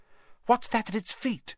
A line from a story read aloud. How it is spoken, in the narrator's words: Hermione whispered